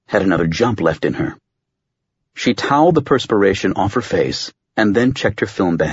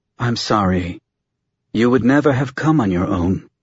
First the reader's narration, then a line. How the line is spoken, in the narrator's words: she said